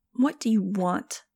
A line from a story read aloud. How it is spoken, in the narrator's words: snapped